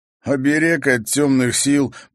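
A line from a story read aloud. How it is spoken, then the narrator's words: Knowing. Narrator (Russian): понимающе кивнул Димка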